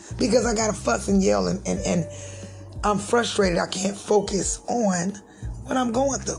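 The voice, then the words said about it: Hoarse, strained, nearly lost voice. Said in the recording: “As y'all can hear, my voice is gone.”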